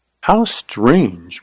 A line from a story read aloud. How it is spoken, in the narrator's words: murmured Carly